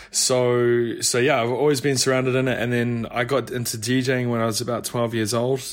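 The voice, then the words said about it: New Zealand accent. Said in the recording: “So I'm actually from New Zealand... It wasn't a London accent”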